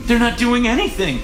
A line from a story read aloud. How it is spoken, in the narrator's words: she gasped